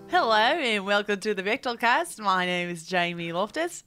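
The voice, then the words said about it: Put-on accent. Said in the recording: “I guess we're doing these accents.”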